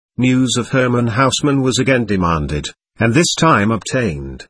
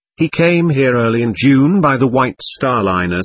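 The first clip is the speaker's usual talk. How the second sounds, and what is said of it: Strong American accent. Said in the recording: “a voice with a strong American accent replied”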